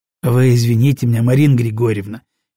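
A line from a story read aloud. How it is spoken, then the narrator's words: Soft. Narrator (Russian): мягко сказал я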